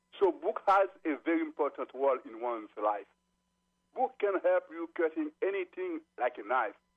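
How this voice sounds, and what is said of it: Haitian-accented English. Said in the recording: “I would like to apologize for the accent. I am a stranger. ... moving from Haiti to the United States”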